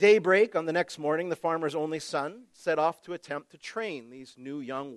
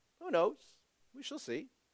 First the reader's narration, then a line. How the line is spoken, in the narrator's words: Again, the farmer softly said